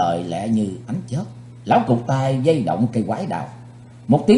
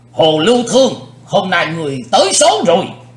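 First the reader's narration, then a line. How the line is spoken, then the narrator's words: Loud shout. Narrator (Vietnamese): Lão cục tài hét lớn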